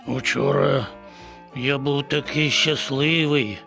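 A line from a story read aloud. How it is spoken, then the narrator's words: Wistful sigh. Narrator (Ukrainian): зітхнув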